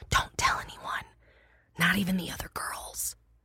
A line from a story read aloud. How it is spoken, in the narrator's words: I whispered